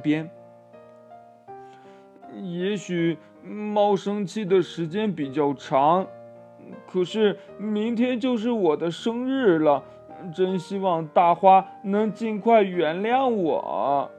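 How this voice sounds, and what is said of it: Quiet, murmuring to himself. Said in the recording (Chinese): “小声地对自己说”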